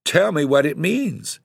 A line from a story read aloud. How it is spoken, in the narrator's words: cried despairingly